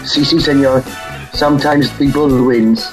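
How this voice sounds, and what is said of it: Put-on accent for joke punchline. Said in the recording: “my brilliant accent”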